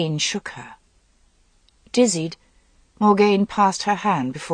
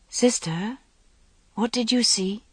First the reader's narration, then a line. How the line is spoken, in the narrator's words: asked Guinevere gently